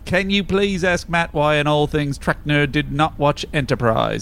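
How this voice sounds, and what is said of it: Put-on accent, noticeably off. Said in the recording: “I feel like I'm particularly off on my accent ... today.”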